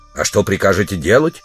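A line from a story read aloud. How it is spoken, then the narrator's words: Stern question. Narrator (Russian): строго спросил его спутник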